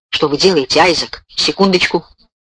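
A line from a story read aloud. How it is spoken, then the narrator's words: Whispered. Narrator (Russian): прошептал Кроуэлл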